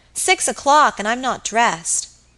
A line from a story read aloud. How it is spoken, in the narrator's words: cried suddenly